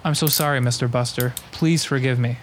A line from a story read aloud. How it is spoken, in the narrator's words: said the policeman